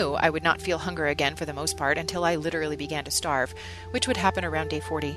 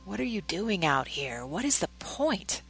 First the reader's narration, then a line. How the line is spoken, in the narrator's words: Satan whispered